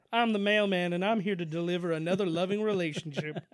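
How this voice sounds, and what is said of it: Imitates another person's voice. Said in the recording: “your Carl Malone impression ... I think I fucking nailed it. To be honest, I think I did a good one.”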